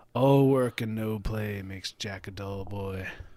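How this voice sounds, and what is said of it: Raspy, breathy Jack Nicholson impression. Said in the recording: “You can't do a Jack Nicholson? ... Something about like the breathiness or something, or like the raspy breathy. ... You sound like an old wizard.”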